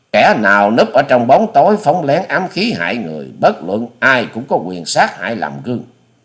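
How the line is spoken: Angry old woman. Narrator (Vietnamese): Cụ bà áo xanh ngồi trên ghế bành dục đứng lên giận dữ nói

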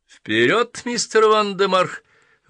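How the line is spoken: Exclaimed. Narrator (Russian): воскликнул мистер Крупп

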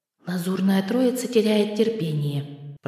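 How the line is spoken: Whispered, cloud. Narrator (Russian): прошептало облако

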